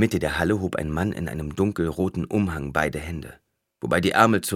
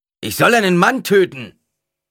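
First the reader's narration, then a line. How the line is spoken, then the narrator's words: Deep rough roar. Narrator (German): brüllte eine Stimme, eine tiefe, raue Stimme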